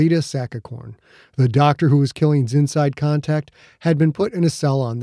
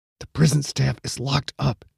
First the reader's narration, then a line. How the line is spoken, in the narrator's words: he muttered